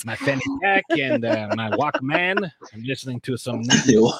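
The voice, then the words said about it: Imitates another person's voice. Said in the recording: “my Bergeron impression... I know he doesn't sound like that”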